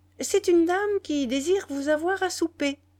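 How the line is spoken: Cheerful journalist. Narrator (French): reprit gaiement le journaliste

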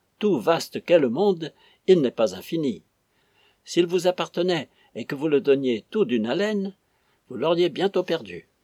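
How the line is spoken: Exclaimed. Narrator (French): s'écria Flavius

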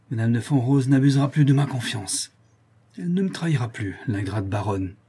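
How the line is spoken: Strained, shaken voice. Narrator (French): ajouta-t-il d'une voix fort altérée

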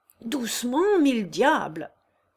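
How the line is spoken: Shouted. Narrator (French): cria M

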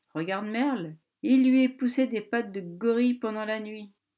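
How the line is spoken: Sneered. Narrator (French): ricana David

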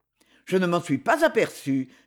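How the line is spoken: Somewhat curt. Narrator (French): fit Robert un peu sèchement

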